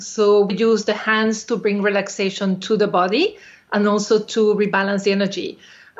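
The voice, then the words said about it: Spanish accent. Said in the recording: “I have a Spanish accent,”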